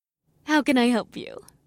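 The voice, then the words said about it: Dainty Midwestern woman's character voice. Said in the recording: “The sweet-faced, middle-aged woman asked in her dainty Midwestern accent.”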